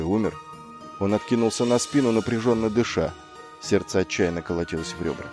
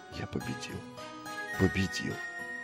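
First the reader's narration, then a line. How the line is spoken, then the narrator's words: Whisper. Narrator (Russian): прошептал он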